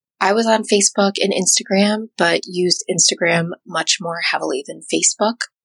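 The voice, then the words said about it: Congested voice. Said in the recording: “I'm getting over being sick, so my voice might be a little bit congested”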